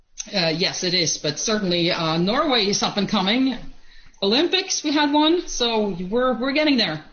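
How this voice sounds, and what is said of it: Norwegian accent, not American. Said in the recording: “that's not an American accent, I hear. You're originally from Norway”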